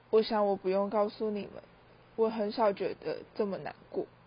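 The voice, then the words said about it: Slightly choked, tearful voice. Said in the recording (Chinese): “用一种微带哽咽的声音说”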